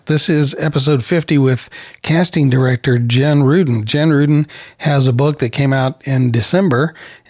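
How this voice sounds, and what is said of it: Sick-sounding, rough voice. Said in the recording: “I've been sick on and off since then, and it looks like the old allergy bug has bitten this old boy once again ... I actually don't feel as bad as I sound, but I know that I sound terrible.”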